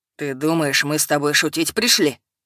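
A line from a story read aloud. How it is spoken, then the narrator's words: Growled like wounded bear. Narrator (Russian): Прорычал он раненым медведем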